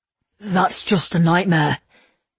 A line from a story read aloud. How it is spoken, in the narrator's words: Levi said hoarsely